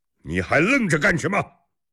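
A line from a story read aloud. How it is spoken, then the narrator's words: Shouting. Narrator (Chinese): 侯君集对迟德利喊着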